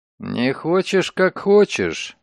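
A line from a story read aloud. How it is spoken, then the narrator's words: Grumbling. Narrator (Russian): буркнул он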